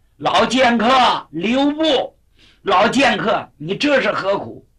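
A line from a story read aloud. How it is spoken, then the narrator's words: Swordsmen shouting. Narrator (Chinese): 马天福、马天池两位剑客也喊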